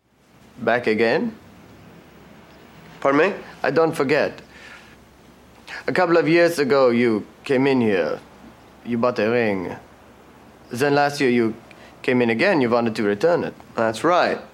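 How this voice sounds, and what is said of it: Bad put-on accent, old man. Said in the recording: “Other than the accent, he does nothing to alter his voice, and it's so bad”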